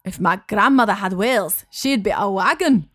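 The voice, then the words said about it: Weak put-on Scottish accent. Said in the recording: “I thought I could do a Scottish accent better than that.”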